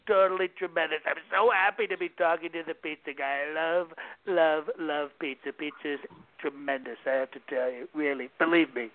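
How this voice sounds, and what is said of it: Donald Trump impression. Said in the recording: “What about a little impersonation here? ... Give a little Donald Trump.”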